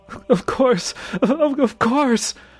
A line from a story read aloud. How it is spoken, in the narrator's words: I screamed